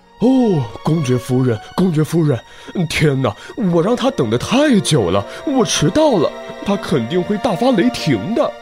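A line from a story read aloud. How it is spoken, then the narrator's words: Muttering. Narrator (Chinese): 它嘴里还不停地嘟囔着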